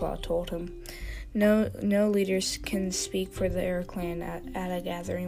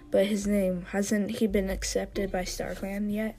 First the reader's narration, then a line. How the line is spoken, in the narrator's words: asked One-Eye